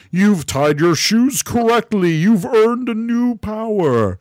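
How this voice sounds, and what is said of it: Imitates a character's voice. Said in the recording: “you sounded just like him. Best Gosei impression.”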